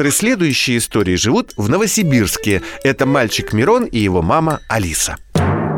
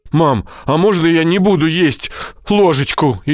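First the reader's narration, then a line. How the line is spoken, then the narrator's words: Frightened answer. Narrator (Russian): испуганно отвечает Мирон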